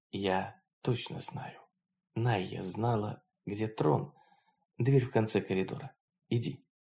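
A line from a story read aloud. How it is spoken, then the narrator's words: Whisper. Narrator (Russian): Лаон также шепотом ответила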